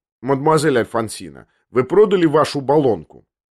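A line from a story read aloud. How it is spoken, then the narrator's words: Plain. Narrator (Russian): спросил он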